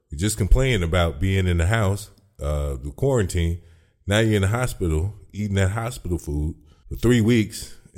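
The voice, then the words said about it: Smooth radio voice like Don Cornelius. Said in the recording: “You got a radio voice just like Don Cornelius, man. Smooth and muck. Smooth and butter.”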